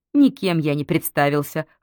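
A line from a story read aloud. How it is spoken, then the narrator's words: Snort. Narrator (Russian): хмыкнул Неволин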